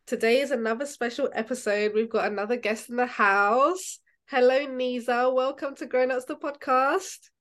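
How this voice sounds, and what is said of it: Congested, sick-sounding voice. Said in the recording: “I'm sick. If I sound like a dickhead, that's why ... hopefully I can breathe again”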